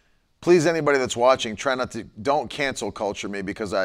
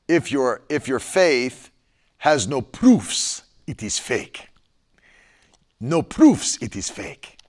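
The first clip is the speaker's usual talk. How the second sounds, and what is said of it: Attempted Nigerian accent. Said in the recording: “I attempted a Nigerian accent.”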